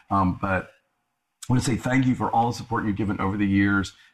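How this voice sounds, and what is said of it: Slightly hoarse voice. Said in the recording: “I'm a little bit hoarse... I lost my voice a few days ago. I'm better now.”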